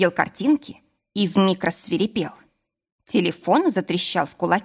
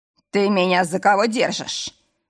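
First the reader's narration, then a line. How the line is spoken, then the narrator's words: Growl. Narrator (Russian): рыкнул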